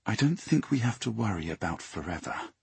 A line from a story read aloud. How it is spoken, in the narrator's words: she added, in an undertone only she could hear